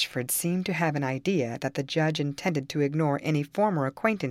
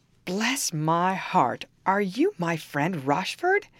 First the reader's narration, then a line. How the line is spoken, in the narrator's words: exclaimed the judge